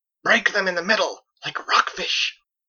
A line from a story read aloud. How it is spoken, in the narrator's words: Diana called out to the others